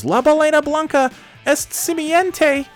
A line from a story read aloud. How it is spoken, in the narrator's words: Lenny then yells